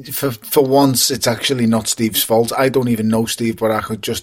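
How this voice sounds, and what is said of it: Scouse accent. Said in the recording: “your beautiful fucking Scouse accent”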